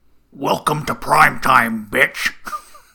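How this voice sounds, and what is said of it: Imitates Freddy Krueger's menacing voice. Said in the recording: “Can you redo that one for me in the Freddy voice? ... do the Freddy voice ... That's pretty good.”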